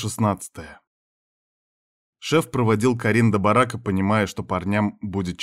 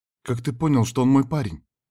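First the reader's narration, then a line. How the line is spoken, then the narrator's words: Frightened question. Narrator (Russian): испуганно спросила Карин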